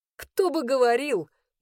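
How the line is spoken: Bitter laugh. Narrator (Russian): горько рассмеялся я

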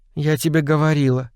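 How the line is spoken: Dejected voice. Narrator (Russian): упавшим голосом сказала Элен

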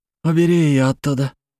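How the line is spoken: Breathed out, cut off. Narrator (Russian): выдохнул он, но договорить не успел

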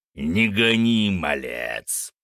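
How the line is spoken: Growled. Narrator (Russian): прорычал Фенрис

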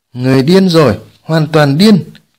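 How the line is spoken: Loud laughter. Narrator (Vietnamese): Thiên Ma Vương cất tiếng cười lớn

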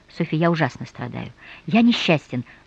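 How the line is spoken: Sudden whisper. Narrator (Russian): вдруг прошептал

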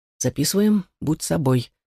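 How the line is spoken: Quiet mutter. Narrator (Russian): тихо пробормотал он

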